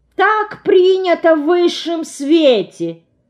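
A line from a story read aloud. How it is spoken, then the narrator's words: Silly clowning voice. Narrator (Russian): дурашливым голосом изрекает Лида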